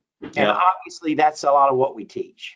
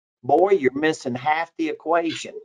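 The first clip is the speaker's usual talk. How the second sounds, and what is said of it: Old Southern accent. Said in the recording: “in an old Southern accent, goes”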